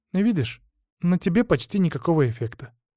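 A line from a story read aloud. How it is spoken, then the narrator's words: Sighing. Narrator (Russian): вздохнула она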